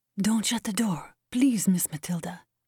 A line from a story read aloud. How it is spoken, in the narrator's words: Anna said in a low voice